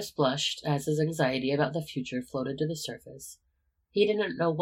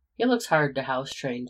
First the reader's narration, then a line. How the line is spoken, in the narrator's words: Peter laughed